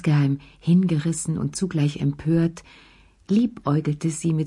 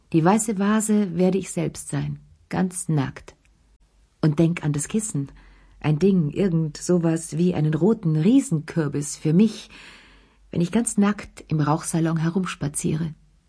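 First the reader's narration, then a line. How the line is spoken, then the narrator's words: Brusque interruption. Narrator (German): unterbrach er sie ziemlich schroff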